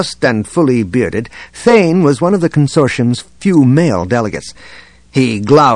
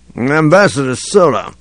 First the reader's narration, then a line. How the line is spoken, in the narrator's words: he said, slurring his words